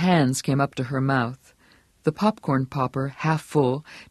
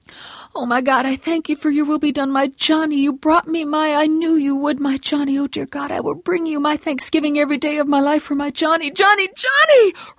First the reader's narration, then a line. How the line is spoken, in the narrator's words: Her voice was rising to an hysterical, triumphant scream